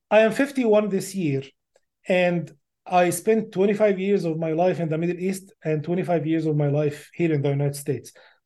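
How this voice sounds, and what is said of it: Thick foreign accent. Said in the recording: “my thick accent”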